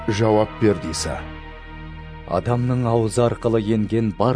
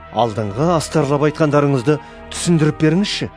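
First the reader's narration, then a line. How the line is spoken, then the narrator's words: Polite request. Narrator (Kazakh): деп өтінді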